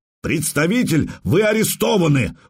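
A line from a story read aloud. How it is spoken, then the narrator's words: Sudden shout. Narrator (Russian): вдруг закричал бедренец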